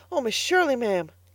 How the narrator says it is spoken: gasped Carlotta

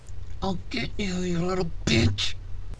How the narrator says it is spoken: he snarled

